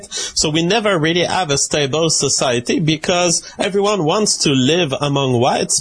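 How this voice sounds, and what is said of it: Non-American foreign accent. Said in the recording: “this clear foreigner. This is not an American accent I'm hearing.”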